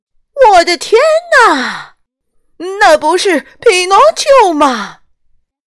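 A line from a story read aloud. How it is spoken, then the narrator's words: Exaggerated shout. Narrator (Chinese): 哈尔昆夸张的喊了起来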